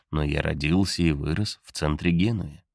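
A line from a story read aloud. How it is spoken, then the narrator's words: Confident voice. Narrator (Russian): уточняешь ты уверенным голосом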